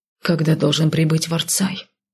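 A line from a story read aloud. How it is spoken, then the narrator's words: Quiet question breaking silence. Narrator (Russian): тихо поинтересовался Алиш, наконец-то нарушая безмолвие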